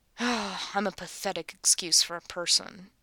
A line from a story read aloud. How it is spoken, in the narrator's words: he mumbles to himself